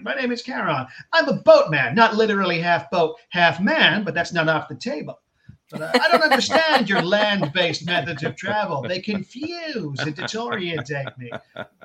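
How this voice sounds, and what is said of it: Imitates another person's voice. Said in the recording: “I'm just going to play him as Phil Hartman ... my impression is not good”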